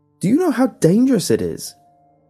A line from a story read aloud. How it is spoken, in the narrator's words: I shouted back, overwhelmed with anger